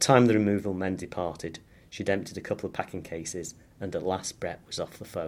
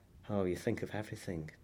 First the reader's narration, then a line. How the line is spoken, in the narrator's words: she murmured